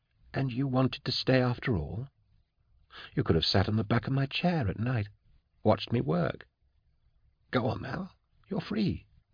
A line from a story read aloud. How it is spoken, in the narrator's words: he said to it softly